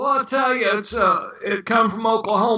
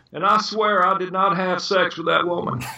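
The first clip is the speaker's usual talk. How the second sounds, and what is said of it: Impression with Arkansas accent, fading off. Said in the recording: “It's easy to imitate somebody who comes from Arkansas ... that was actually impressive. I think you really killed it at the end too, with the fade off of his his uh, sound.”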